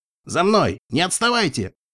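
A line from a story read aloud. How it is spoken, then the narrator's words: Barked command. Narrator (Russian): рявкнул Рустер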